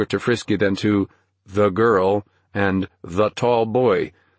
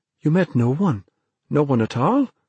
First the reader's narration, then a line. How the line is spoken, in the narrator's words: Dennis asked anxiously